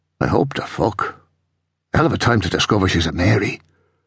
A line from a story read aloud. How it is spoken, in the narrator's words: He muttered